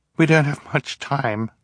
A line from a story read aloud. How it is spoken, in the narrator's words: Violet said, between breaths